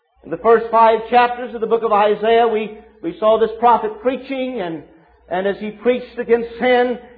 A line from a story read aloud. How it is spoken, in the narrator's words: he cried out